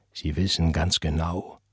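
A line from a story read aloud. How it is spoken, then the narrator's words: Agitated whisper. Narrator (German): flüsterte er aufgebracht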